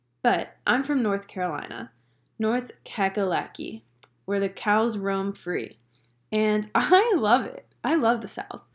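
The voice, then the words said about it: Slight Southern US accent. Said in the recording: “my little accent that everyone says I have? I honestly don't hear it.”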